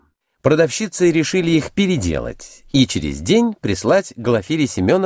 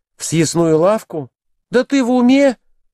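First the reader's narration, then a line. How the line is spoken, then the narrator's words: Exclaiming. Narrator (Russian): воскликнула Глафира Семеновна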